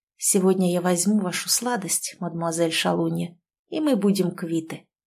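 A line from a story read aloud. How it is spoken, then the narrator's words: Hoarse whisper. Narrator (Russian): прошептал хрипло Кирилл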